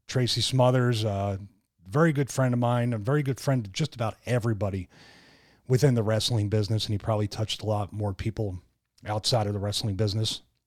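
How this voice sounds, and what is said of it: Emotional, choked-up voice. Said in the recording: “I'm a little choked up”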